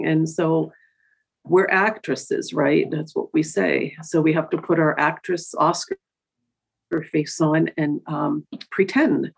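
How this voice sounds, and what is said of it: Emotional, tearful voice. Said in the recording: “get a little emotional. As my eyes are tearing up now telling you this”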